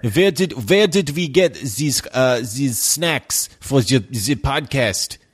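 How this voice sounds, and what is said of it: Cartoonish TV German accent. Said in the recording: “That was your typical F troop cartoonish TV German accent.”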